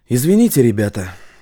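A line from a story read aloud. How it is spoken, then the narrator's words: Breathed out. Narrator (Russian): выдохнул Стас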